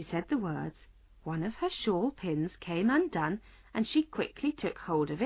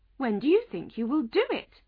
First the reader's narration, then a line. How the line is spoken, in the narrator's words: Alice asked, trying not to laugh